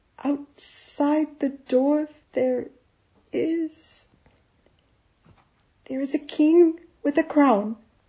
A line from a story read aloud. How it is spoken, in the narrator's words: Amal said hesitantly